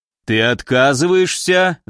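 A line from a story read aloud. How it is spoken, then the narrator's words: Earth creature growling. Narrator (Russian): зарычал земляной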